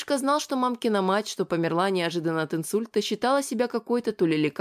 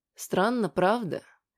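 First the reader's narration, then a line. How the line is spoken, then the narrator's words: Gentler, affectionate voice. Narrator (Russian): заговорила более ласковым голосом Валентина Леонидовна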